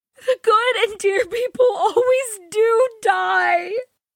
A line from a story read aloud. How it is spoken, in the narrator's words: groaned Joe